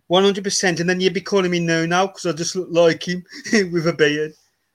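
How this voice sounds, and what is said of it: Black Country English accent. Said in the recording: “has developed a Black Country accent”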